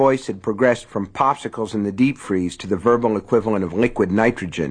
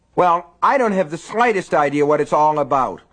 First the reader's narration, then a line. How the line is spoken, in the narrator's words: Lester shouted